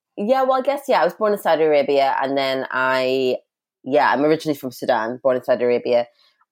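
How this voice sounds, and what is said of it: Mixed international accent. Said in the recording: “the most striking thing for me particularly is your your accent ... I would probably use the term international accent”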